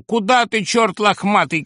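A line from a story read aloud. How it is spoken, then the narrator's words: Desperate shout. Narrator (Russian): кричала отчаянно Зина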